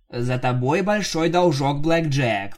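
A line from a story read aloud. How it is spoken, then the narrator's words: Grumble. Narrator (Russian): проворчала она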